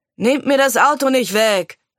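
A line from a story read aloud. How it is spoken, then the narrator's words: Calling after from door. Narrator (German): rief Jon ihn von der Tür aus nach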